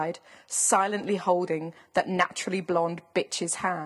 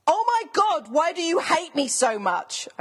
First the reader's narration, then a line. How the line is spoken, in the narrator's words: I screamed